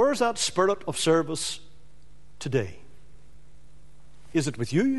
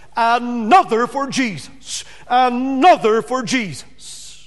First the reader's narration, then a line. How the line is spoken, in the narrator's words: they rejoiced over the conversion of souls with this shout